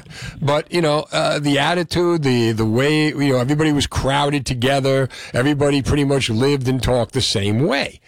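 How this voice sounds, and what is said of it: Mild North Jersey accent. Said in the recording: “Had a very, very thick Union City accent, which I pretty much have now, but not as bad”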